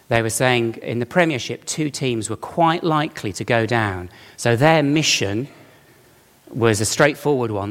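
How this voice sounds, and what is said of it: Birmingham accent. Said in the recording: “I'm from Birmingham. You can tell from the accent, can't you?”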